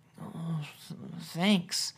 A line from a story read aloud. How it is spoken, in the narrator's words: he mumbled